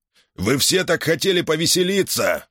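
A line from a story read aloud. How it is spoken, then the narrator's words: Roaring. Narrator (Russian): проревел Гар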